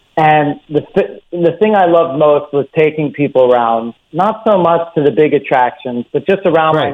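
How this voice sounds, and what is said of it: Philadelphia American accent. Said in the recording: “I'm originally from Philadelphia. You can probably pick that up from my accent.”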